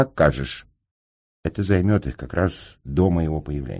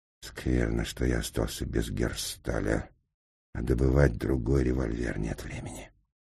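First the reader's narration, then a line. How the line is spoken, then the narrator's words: Muttered under breath. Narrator (Russian): Инженер пробормотал в полголоса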